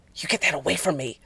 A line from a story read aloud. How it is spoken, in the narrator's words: Jensen hissed, teeth bared